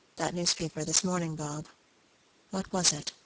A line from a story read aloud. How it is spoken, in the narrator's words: in a hesitating manner, said quietly